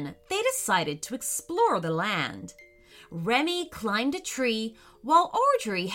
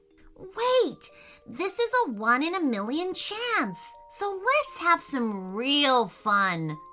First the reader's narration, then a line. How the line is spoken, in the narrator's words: said Remy excitedly